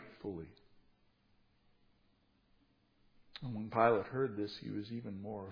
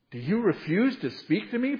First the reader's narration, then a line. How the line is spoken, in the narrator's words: Pilate said